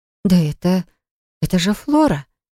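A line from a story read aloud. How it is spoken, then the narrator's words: Amazed mutter. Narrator (Russian): изумленно пробормотала Полли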